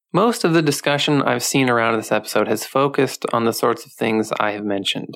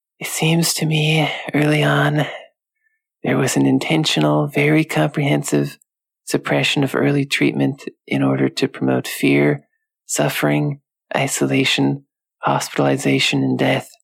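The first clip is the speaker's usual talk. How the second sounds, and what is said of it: Bad impression of a creepy voice. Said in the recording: “going to do a bad impression of his voice here, his creepy voice.”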